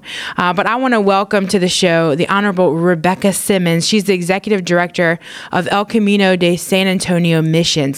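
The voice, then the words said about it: Baton Rouge Louisiana accent. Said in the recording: “that's my Baton Rouge accent.”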